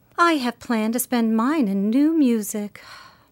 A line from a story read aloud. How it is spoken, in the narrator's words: said Beth, with a little sigh, which no one heard but the hearth brush and kettle holder